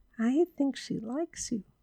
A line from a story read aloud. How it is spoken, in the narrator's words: whispered Judy